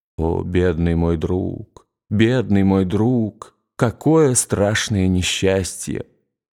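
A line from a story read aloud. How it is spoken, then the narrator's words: Muttered through teeth. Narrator (Russian): Граф повторяя сквозь зубы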